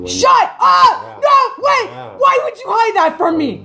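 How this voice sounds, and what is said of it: High-pitched excited outburst. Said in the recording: “the octave of my voice was not justified.”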